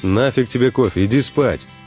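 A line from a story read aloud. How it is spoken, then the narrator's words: Plain. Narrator (Russian): ответил я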